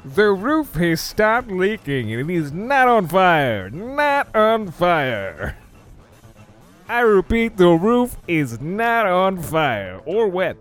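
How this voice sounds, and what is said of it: Old-school announcer voice. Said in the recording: “I've been talking in this announcer voice for all day ... Been talking like an announcer, old school”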